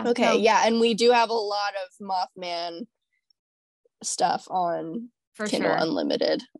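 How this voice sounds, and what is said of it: Voice sounding congested from a cold. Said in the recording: “I'm not even going to attempt it with my cold”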